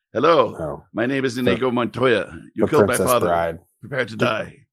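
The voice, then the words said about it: Put-on foreign accent. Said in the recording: “here's another one that should be done with an accent.”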